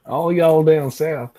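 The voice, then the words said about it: Put-on Southern US accent. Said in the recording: “That was my impression of a southerner.”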